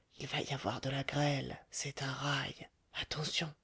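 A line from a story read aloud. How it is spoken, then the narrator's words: Whispered. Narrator (French): Le Chourineur dit tout bas à Rodolphe et à la Goualeuse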